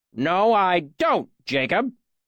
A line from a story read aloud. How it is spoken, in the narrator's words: Cobb snapped